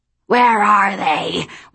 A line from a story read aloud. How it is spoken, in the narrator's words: one of them snarled